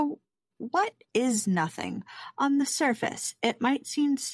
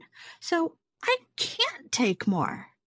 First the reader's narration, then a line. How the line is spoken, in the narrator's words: Alice replied in an offended tone